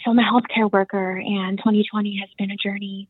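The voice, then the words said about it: Whispering. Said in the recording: “I have to whisper because I'm at work”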